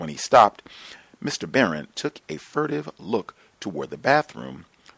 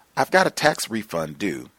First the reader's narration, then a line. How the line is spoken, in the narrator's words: I said hastily